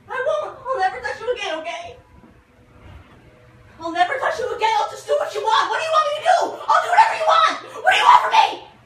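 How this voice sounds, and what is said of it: Screaming, distraught pleading. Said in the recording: “Stop screaming and pretending.”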